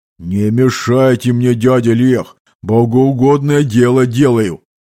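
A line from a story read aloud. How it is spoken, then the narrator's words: Breathed out up close. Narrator (Russian): выдохнул мне прямо в лицо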